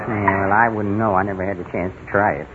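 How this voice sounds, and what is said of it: Mumbling, indistinct speech. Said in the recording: “Quit mumbling. Quit mumbling.”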